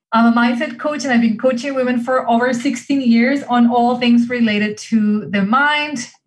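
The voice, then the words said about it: Spanish accent. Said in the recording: “the accent you hear is Spanish”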